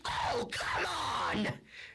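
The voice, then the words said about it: Angry yelling voice. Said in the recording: “Yelled Clegane in a mad voice.”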